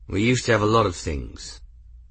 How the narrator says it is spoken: said in a neutral tone

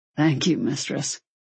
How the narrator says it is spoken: he said roughly and immediately

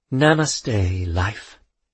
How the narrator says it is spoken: she sighed

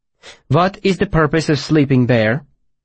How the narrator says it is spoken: she asked calmly

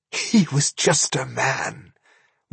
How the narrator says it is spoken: whispered Narmora, laughing in relief

